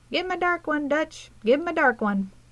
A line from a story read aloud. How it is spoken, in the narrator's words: Willie turn a languid head to pipe in his thin voice